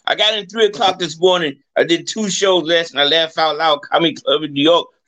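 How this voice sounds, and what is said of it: Hoarse voice. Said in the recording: “I'm a little bit hoarse again”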